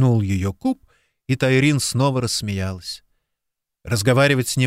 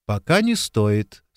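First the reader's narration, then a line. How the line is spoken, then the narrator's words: Calm objection. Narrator (Russian): спокойно возразила Тайрин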